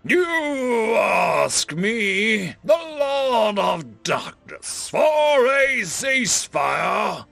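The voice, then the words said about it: Deep growling villain voice. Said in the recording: “A deep voice bordering on a growl exited the metal helmet of the Sauron ripoff.”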